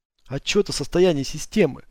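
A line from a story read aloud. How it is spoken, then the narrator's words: Hoarse whisper. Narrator (Russian): шепнул я хрипло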